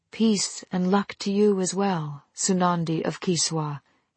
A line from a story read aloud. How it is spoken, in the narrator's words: he said softly